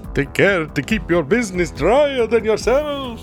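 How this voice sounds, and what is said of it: Put-on vampire accent. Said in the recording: “That's a space vampire version. ... a vampire accent perfectly”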